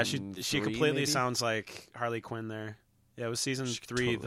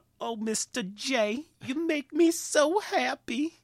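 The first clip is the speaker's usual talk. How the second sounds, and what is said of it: Awful Harley Quinn impression. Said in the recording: “doing an awful Harley Quinn impersonation”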